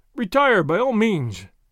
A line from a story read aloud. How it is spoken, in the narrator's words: one of his friends cried